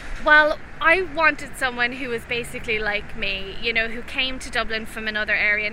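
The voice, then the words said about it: Regional accent, not Dublin. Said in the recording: “you're not from Dublin, clearly, from your accent.”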